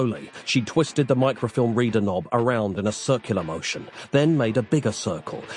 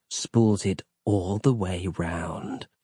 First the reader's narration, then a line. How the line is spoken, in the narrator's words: she said, leaning down to whisper the words softly into his ear